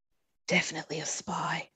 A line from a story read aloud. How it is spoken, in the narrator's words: she whispered